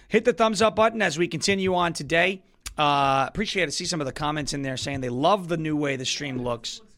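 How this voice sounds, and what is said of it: Hoarse, strained voice. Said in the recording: “My throat hurts ... I don't know why my voice is gone. Maybe I'm just tired.”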